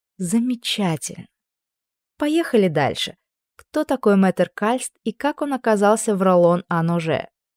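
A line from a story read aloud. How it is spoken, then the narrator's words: Almost purring. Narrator (Russian): Я почти мурлыкала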